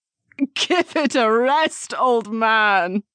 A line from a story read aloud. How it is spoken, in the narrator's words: the woman said with a laugh